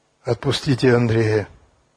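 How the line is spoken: Quiet. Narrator (Russian): негромко сказал Яков

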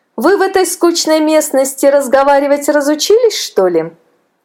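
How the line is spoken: Laughing woman. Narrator (Russian): засмеялась красавица

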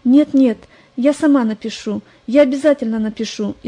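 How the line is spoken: Frightened. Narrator (Russian): испуганно ответила Лариса

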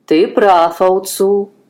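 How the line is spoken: Plain. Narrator (Russian): ответил тот

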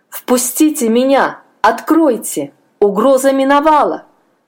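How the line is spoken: Shouting. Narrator (Russian): кричал он

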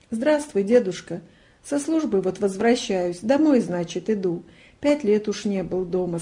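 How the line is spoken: Plain, soldier. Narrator (Russian): сказал служивый

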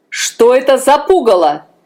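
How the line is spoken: Shouting king. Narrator (Russian): закричал король

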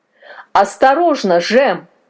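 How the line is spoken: Grandfather shouting. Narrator (Russian): крикнул дед

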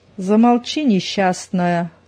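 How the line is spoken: Menacing. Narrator (Russian): грозно отозвалась Зина

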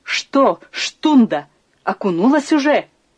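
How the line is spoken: Shout. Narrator (Russian): крикнула она

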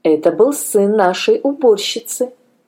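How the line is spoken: Plain. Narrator (Russian): ответила мать

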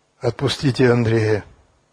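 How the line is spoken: Quiet. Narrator (Russian): негромко сказал Яков

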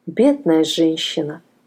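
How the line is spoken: Sighing. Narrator (Russian): вздохнула

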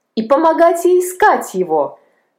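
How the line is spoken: Excited exclamation, boy. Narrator (Russian): воскликнул мальчик, вскакивая

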